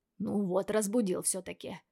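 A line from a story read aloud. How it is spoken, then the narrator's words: Grumbling. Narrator (Russian): проворчал Сай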